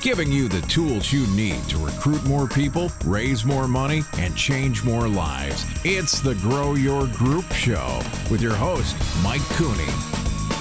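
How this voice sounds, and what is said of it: Deep male announcer voice. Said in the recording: “the man with deep voice”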